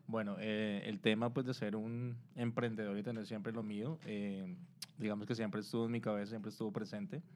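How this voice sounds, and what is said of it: Colombian Spanish accent. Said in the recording (Spanish): “Él es de Colombia porque ya notaron su acento”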